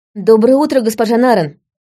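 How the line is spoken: Exclaimed. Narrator (Russian): воскликнул лейтенант

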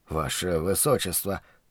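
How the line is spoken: Sleepy mutter. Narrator (Russian): пробормотал я

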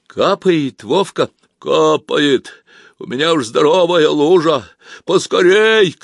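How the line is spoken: Shout from deep below. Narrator (Russian): кричал Вовка из глубины

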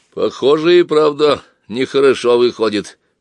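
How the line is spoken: Deep bass voice, worker. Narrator (Russian): пробасил усатый рабочий

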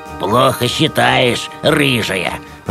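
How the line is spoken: Familiar grumble. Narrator (Russian): раздалось знакомое ворчание

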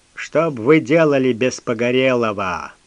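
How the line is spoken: Puffed-up grumbling. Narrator (Russian): проворчал особист, откровенно пыжись

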